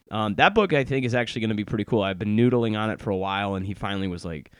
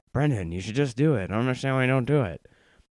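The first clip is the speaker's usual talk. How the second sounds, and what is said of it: Poor imitation of another person's voice. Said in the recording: “That was not a very good impression. It sounded like Humphrey Bogart instead of James Altucher.”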